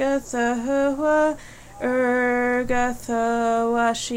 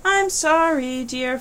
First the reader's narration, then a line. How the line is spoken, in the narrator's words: Phrasma said